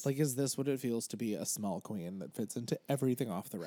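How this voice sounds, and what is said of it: Dry, strained voice. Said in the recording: “I'm just very dry. Okay, I'm dehydrated and my voice is kind of like, help.”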